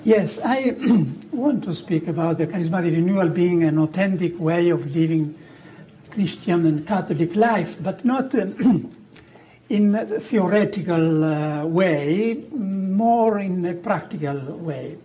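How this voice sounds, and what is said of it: Heavy Italian accent in English. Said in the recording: “I am speaking English with a heavy Italian accent”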